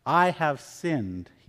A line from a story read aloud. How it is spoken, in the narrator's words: he said